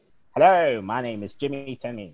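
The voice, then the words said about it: Put-on mid-Atlantic accent. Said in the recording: “the mid-Atlantic accent, where it had a bit of Americanness, but it had like the British reflections in there”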